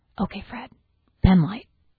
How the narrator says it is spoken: takes a deep breath, and whispers

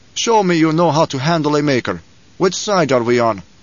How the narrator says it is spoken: Stilgar said, and his voice was harsh

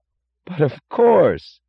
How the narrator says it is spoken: cried Lawson with startled enthusiasm

